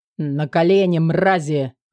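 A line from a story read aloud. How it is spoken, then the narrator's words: Menacing deep bass command. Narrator (Russian): Приказал ... страшнючим басом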